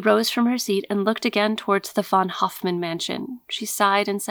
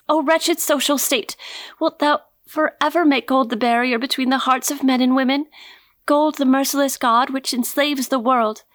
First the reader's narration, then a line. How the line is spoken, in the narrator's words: She sighed, and then in a voice which told of intense bitterness, she cried aloud